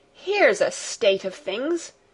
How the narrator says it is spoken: exclaimed Fräulein Rottenmeier

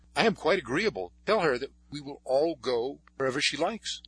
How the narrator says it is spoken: Paul, who was very much excited, exclaimed

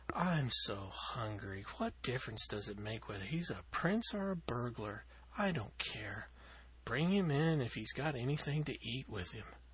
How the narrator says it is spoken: sighed Cecilia

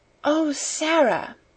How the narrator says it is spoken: she whispered joyfully

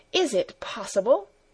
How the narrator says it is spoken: stammered half aloud

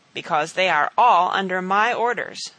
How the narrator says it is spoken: said Wat

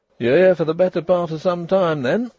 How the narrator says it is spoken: exclaimed Mrs

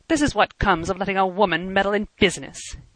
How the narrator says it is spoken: he said bitterly

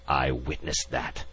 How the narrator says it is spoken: the ambassador hissed

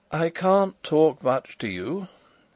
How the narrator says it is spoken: he said in a weak voice

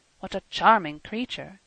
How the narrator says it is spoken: Carl murmured

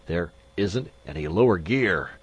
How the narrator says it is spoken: Magnan gasped

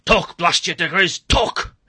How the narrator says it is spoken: he roared

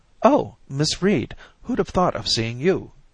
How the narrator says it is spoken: she cried with surprise

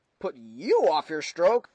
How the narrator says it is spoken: I exclaimed incredulously

